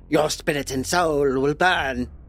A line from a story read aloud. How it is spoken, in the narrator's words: growled